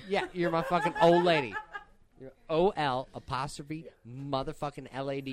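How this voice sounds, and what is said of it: Midwestern American accent. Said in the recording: “I am from the Midwest, and ... So I have this goddamn stank fucking accent.”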